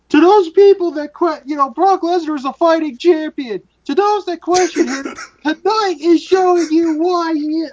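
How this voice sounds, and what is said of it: Impression of Michael Cole. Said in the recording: “You just got your impression right there. That was picture perfect, Michael Cole.”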